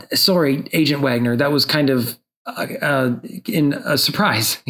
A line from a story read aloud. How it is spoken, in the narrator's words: he stammers